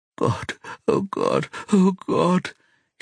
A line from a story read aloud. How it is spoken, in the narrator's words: suddenly whimpers